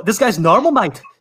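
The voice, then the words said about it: Attempted Australian accent, sounds Scottish. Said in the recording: “I'm trying to practice my Australian accent ... It doesn't even sound like you're trying to do an Australian accent. It sounds more like you're trying to do a Scottish accent.”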